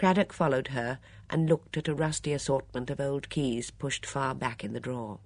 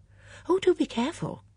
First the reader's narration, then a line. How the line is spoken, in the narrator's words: cried Miss Bunner